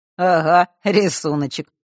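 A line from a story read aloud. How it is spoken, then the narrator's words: Short chuckle. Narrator (Russian): хохотнул Фэш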